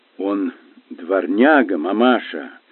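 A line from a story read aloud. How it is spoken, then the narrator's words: Grim, firm declaration. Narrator (Russian): мрачно, но твердо заявил мистер Паучер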